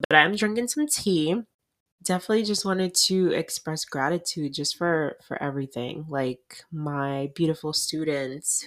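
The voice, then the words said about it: Tired, unused-sounding voice. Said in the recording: “if my voice sounds a little crazy, I'm tired and I literally like haven't been talking”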